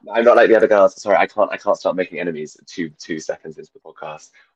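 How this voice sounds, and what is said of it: Hoarse, nearly lost voice. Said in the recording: “I've really lost my voice. I'm coming down with like fringe flu. I didn't mean to sound this sexy”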